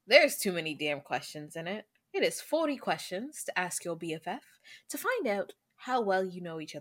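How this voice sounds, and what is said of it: Deliberately bad put-on accent. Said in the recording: “I don't know why I keep going to that accent. ... We can all talk in that accent, darling. ... our bad accents”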